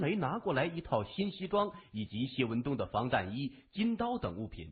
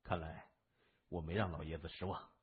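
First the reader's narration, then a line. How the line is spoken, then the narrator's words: Relieved sigh. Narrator (Chinese): 谢文东长叹一声，松了口气说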